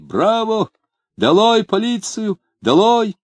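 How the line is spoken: Crowd shouting. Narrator (Russian): кругом десятки голосов кричали

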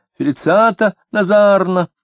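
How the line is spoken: Shrill scream. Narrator (Russian): визгливо закричала

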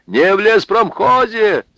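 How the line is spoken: Shout. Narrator (Russian): закричал Михаил

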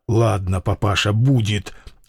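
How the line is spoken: Quiet, melancholy plea. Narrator (Russian): тихо и тоскливо попросил он

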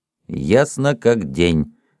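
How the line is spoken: Irritated, uncertain agreement. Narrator (Russian): раздраженно согласился капитан, поскольку в душе он был совсем в этом не уверен

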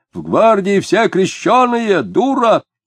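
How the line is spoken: Shout after someone. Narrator (Russian): коротконогий человек закричал вслед женщине

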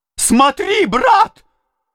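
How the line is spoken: Pale, spiteful shout. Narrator (Russian): закричал Нехлюдов бледнее и испытывая злобное чувство личности против мужика

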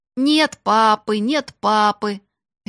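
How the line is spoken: Mocking shout. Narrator (Russian): насмешливо крикнул

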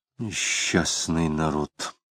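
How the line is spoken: Muttering. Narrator (Russian): пробормотал Самгин

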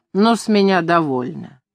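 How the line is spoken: Angry. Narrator (Russian): Ардальон сказал сердито

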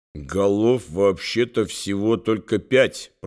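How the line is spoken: Through clenched lips. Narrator (Russian): процедил поэт, не разжимая губ

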